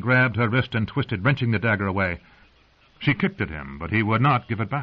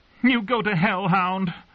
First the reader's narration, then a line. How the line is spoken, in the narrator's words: she screamed at Sandor Clegane in helpless, empty-handed rage